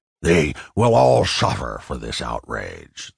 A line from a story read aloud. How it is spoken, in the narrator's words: the gangster grunted